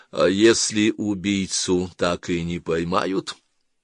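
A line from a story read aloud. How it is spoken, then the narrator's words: Even-toned question. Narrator (Russian): спросил ровным тоном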